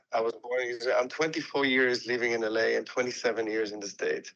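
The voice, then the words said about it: Non-American foreign accent. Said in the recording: “you still don't sound American.”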